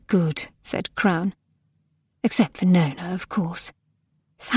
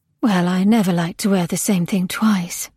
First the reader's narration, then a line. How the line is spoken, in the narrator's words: said Crown brightly